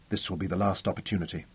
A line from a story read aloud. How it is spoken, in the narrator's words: she told him quickly